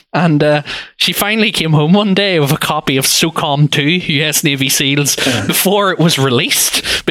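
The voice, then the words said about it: North Belfast accent. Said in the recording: “a nice North Belfast accent”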